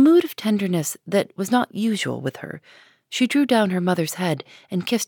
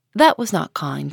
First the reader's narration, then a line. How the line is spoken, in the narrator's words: said Hester